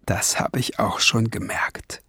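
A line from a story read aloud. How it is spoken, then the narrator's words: Whispering back. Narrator (German): flüsterte Barnabas Wiesengrund zurück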